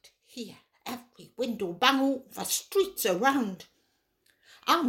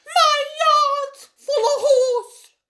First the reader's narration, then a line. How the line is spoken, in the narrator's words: screamed